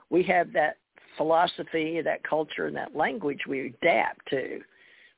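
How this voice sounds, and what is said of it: Southern American accent. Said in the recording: “I have a Southern accent.”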